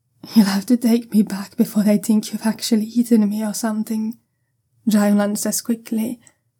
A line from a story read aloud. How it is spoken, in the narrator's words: his voice breathy